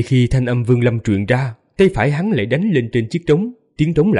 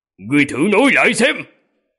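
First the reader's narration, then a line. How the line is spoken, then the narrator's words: Loud murderous shout. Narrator (Vietnamese): Nam tử mặc kim giáp hét lớn một tiếng, sát khí nồng đậm, quát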